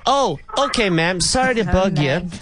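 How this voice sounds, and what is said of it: Bad put-on American accent. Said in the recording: “Worst American accent, by the way. You're going to hear here. Worst. I call it a Colorado in accent.”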